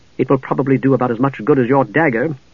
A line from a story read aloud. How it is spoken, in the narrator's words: Palin returned crossly, not liking the reminder